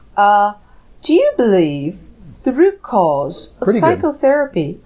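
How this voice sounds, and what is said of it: Weak attempt at British accent. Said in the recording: “Read it in a British accent, please. ... I can't do it as well.”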